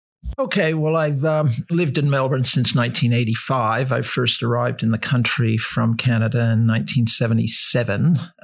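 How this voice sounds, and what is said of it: Canadian accent. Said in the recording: “if you picked up ... voice then, he's got a Canadian accent”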